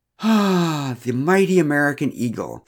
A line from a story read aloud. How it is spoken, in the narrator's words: sighed the American man